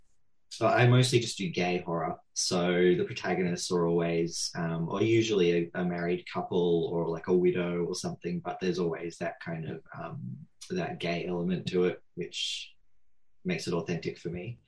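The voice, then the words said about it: Australian accent. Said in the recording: “I from Australia. In case the accent didn't give it away”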